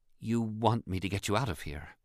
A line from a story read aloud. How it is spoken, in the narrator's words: she said softly